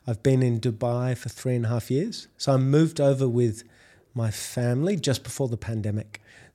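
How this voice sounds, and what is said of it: Australian accent. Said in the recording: “if you can't tell by my accent, I'm Australian”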